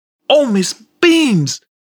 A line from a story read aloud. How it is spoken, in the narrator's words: exclaimed Goblik